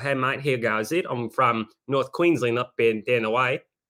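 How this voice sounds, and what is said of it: Convincing put-on Australian accent. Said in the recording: “Australian's more like this ... your impressions are ... They're very good ... with an Australian accent make it sound like I'm actually from there, like born and raised, mate”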